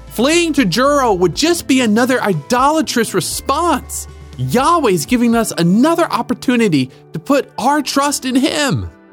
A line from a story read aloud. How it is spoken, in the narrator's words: Rode hollered after them